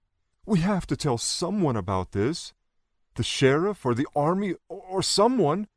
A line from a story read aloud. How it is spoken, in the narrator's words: said, still sobbing slightly